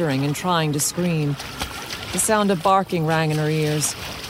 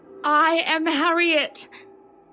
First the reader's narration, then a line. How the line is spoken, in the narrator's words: She cried out into the room, spluttering and hiccuping, feeling drowned not by water this time, but emotion